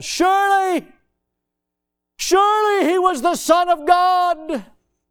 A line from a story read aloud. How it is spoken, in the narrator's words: a Roman centurion shouted out